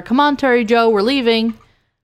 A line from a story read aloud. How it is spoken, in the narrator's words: He called out to her